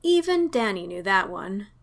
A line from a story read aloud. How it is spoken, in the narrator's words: he sighed